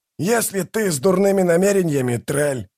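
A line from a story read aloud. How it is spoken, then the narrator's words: Growl. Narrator (Russian): прорычал возница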